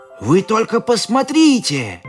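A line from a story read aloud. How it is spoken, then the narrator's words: Exclaimed. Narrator (Russian): воскликнул Риксис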